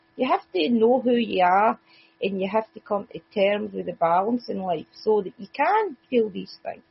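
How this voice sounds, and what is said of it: Strong Scottish accent. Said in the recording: “my Scottish accent can be a bit much”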